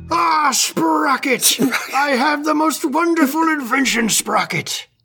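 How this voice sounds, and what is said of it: Good impression of a puppet character. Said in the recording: “That was a pretty good impression, actually.”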